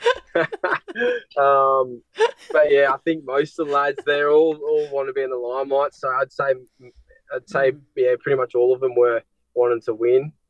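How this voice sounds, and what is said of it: Australian accent. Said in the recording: “They wanted to be the Aussie ... Do you ladies find it hard to understand my accent?”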